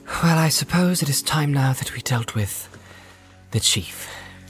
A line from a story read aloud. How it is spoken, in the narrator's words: Frodo said with a sigh